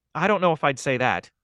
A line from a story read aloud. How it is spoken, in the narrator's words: Tina added quickly